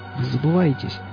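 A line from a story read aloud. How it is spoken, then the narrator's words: Hoarse remark. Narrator (Russian): хрипло проронил он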